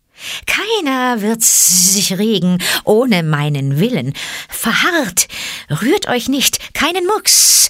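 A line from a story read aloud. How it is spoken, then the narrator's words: Hissed. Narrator (German): zischte Kaa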